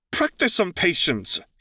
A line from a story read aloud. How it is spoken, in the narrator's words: he snapped back